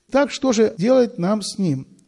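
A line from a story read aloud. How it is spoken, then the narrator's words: Plain question, father. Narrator (Russian): спросил папа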